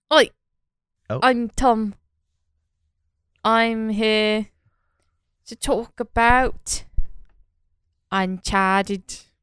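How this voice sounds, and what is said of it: Bad British accent, slightly Australian. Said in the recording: “Got a little bit Australian at the end... that was not the most British accent I've heard... his British accent is sort of a hybrid... That's why it's bad”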